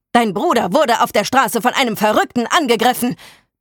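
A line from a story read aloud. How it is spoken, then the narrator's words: Older man bellowing. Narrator (German): brüllte der ältere Mann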